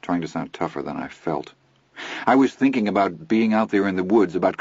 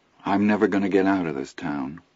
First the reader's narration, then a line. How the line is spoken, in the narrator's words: Chris said, and sighed